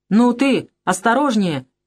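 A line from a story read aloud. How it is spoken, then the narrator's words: Shout. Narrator (Russian): крикнул Шныра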